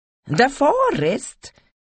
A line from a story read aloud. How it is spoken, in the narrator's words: exclaimed the Julan